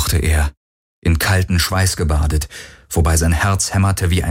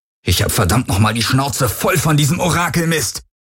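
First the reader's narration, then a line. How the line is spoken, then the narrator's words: Furious roar. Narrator (German): brüllte er die Helix an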